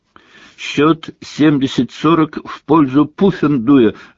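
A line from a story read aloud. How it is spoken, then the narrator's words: Barked through megaphone. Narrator (Russian): рявкнула в рупор профессор МакГонагал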